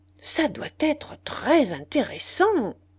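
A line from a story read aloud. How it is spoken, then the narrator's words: Exclaimed. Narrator (French): s'écria Monsieur de Guersin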